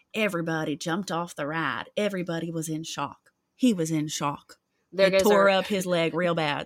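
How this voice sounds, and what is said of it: Put-on West Virginian accent. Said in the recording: “Let me do it in a West Virginian accent.”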